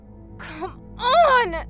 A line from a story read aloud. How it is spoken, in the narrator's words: she screamed